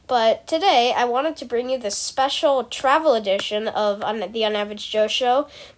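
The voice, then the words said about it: Flat, low-energy voice with a cold. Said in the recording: “sorry if I sound really dead, I'm a little sick right now, I have a cold.”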